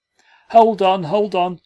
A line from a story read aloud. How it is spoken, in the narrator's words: shouted the peasants again